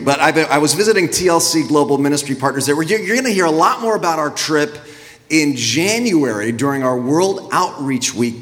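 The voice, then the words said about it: Sick voice, close to losing it. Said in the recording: “I brought back a little bug with me. Little exotic European bug, as you can hear. So pray that I don't lose my voice”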